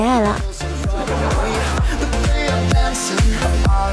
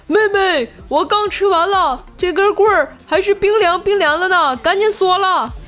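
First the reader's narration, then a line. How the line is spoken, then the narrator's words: Excited shouting. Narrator (Chinese): 我哥哥 兴奋地朝我喊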